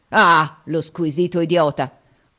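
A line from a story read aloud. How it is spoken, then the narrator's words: Companion grumbling. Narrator (Italian): udite brontolare dal compagno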